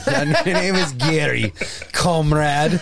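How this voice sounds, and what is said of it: Put-on Russian accent. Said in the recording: “So does Gary need a Russian accent?”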